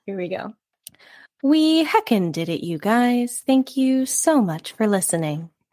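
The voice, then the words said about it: Imitated NPR radio host voice. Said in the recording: “my take on an NPR voice person ... my take on the Parks and Rec take of an NPR voice person”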